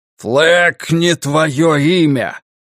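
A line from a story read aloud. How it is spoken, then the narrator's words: Roaring. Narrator (Russian): проревел Ральф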